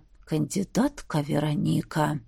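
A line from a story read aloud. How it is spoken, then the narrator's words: Menacing hiss. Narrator (Russian): грозно прошипел Грегори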